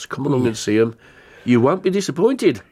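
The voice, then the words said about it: Put-on Brummie accent. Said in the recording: “I went into a Brummie accent then... It could have been Brummie. Polish at the end of it”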